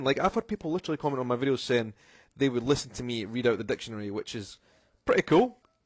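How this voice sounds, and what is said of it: Scottish accent. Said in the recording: “people are really attracted to the Scottish accent ... a podcast with a Scottish accent”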